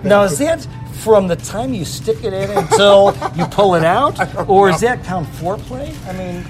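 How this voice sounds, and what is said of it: Chicago accent. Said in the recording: “That's a Chicago accent. ... I'm from Chicago. I get this a lot. ... I have a very distinct.”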